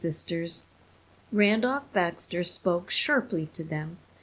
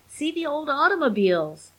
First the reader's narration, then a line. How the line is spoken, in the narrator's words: yelled Simon